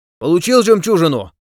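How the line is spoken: Shouting into ear. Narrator (Russian): прокричал он в ухо Раулю

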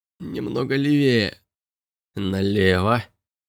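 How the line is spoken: Muttering. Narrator (Russian): пробормотал Робби

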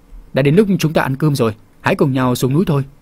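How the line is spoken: Smiling. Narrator (Vietnamese): Vân Nhi mỉm cười và nói

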